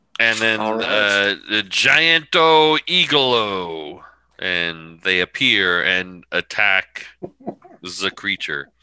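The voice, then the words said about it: Convincing put-on accent. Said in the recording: “Your accent is so good. It's so good.”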